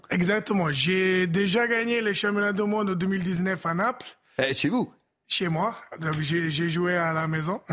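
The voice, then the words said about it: Neapolitan Italian accent in French. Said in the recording (French): “entendez cet accent ... 100% napolitain”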